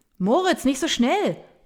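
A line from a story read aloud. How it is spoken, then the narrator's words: Man shouting after someone. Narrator (German): brüllt ein Mann dem Jungen hinterher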